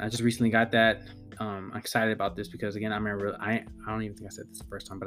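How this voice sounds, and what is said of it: Voice sounds slightly weird. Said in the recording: “Sorry if my voice sounds weird”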